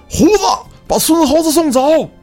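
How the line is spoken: Young soldier shouting. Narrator (Chinese): 一个二十多岁的军人喊道

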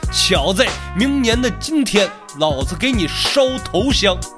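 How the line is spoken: Old man shouting. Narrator (Chinese): 一个老者的声音冲着袁青南喊道

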